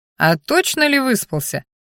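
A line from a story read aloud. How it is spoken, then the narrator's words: Chuckling. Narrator (Russian): хохотнул Сал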